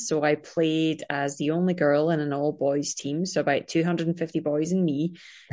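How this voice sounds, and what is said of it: Scottish accent. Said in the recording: “I am from Scotland, as you can tell by my crazy accent.”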